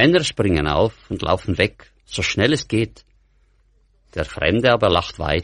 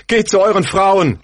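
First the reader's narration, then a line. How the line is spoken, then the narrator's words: Calling out. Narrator (German): ruft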